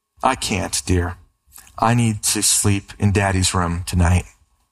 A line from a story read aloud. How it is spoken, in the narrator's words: smiling, the mother gave him a warm and reassuring hug and said tenderly